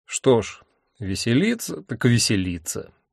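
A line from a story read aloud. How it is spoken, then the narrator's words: Gloomy. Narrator (Russian): мрачно сказал я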